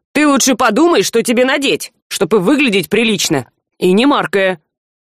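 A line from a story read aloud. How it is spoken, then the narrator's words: Cynical snap. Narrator (Russian): цинично огрызнувшись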